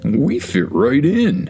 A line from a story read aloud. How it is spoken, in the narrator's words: Stegi chuckled